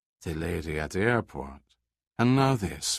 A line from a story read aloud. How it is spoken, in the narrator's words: Moreau said quietly